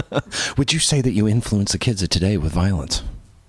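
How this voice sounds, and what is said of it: Serious hard-hitting news reporter voice. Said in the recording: “I wanted all of a sudden be like hard-hitting news guy ... That was even my serious voice.”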